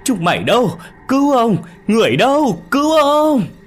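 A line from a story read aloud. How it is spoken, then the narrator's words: Desperate shouting. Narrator (Vietnamese): cụ Lý kêu gào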